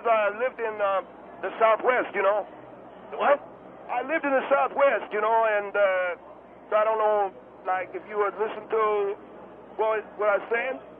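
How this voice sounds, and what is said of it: Hispanic-sounding accent. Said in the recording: “He had an Hispanic accent. He's from Germany.”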